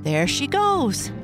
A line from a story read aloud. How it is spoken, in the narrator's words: cried Sally